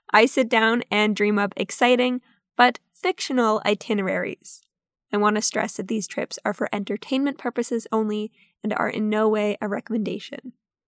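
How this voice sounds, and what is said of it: Sick-sounding voice recovering from cold. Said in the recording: “I don't know if you can tell by my voice, but I'm getting over a sickness. I had a cold all of last week.”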